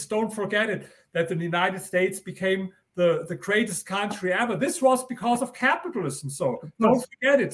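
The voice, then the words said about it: German accent. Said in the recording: “excuse me, my German accent”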